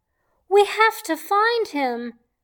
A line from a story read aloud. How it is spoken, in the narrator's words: I shouted